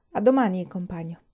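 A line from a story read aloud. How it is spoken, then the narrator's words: Low, clear voice. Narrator (Italian): Disse con voce bassa e chiara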